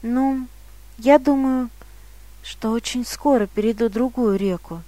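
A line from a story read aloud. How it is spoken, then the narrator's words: Quiet. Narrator (Russian): тихо сказал он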